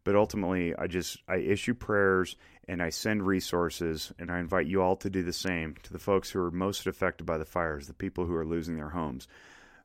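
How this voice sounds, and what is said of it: Lowered, husky smoke-affected voice. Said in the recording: “Pardon my AM radio voice. The smoke is affecting me too. ... Losing an octave of my voice”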